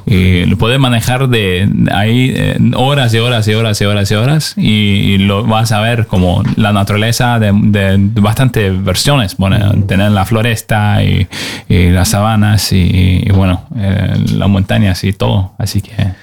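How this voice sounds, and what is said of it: Radio announcer-like voice. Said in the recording (Spanish): “tiene voz de locutor él ... Tienes voz de locutor.”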